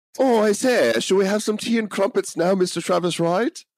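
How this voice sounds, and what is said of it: Bad put-on British accent. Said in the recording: “continually repeat really bad French or British accents and stereotypes as a nonstop joke”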